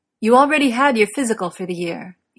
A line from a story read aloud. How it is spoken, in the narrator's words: Eames says sharply